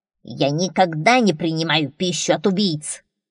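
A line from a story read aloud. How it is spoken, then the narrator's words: Dwarf's growl. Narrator (Russian): прорычал гном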